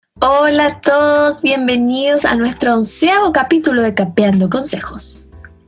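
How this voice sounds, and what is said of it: Radio announcer voice. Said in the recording (Spanish): “Ahora tengo voz de locutora radio.”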